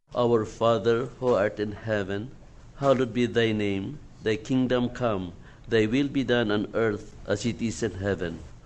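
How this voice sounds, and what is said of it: Filipino-accented English. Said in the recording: “a different accent coming from the pulpit ... originally from the Philippines”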